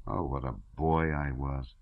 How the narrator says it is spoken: he said aloud bitterly

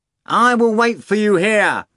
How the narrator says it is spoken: Azazello shouted, cupping his hands to his mouth

